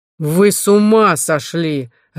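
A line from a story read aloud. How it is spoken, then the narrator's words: Barked. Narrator (Russian): рявкнул Жорба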